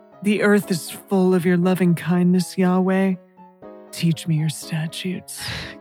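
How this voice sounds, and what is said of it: Sensual imitation of a singer's voice. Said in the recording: “my Chet Baker impression... very okay, sensual”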